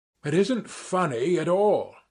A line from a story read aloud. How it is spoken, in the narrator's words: I cried to Ferfitchkin, more and more irritated